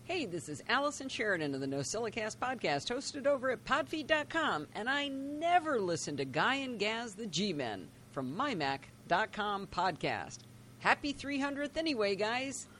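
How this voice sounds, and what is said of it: American accent. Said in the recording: “she's from the U.S., from the accent ... she's over in California”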